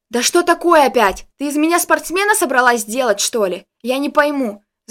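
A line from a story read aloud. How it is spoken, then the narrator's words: Shouting. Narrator (Russian): закричал я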